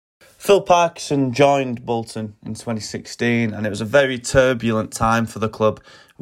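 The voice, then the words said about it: Bolton accent. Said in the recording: “He's a Bolton fan, as you can tell by the accent”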